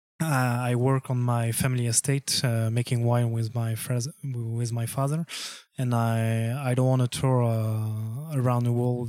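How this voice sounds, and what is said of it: Noticeable foreign accent. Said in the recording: “I'm a little tired. Yes. My accent is going on.”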